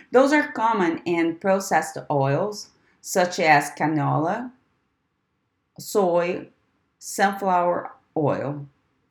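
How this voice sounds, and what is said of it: Speaks with a noticeable accent. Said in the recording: “Repeating again because of my accent.”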